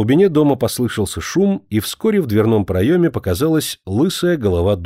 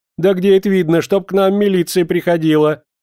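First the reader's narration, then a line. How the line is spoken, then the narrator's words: Sudden shouting. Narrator (Russian): тут же без всякого перехода закричала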